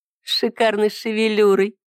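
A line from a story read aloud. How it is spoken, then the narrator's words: Giggling. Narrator (Russian): хихикнула Ида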